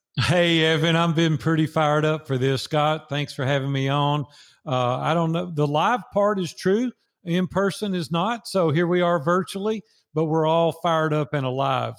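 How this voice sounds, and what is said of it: Nashville Tennessee regional accent. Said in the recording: “Nashville, Tennessee. Born... 60 years, six decades in Nashville, Tennessee. No comments about my accent either... somebody says I've got an accent”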